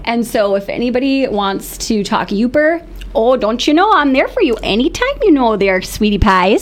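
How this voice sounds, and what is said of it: Yooper accent, convincingly done. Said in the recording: “talk in a Youper accent ... Oh, you've got it down. Oh, wow, that was good. You just flipped right into it, too.”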